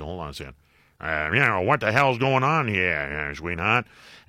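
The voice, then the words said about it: Imitates another person's voice. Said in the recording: “my bogey impersonation ... that was pretty good”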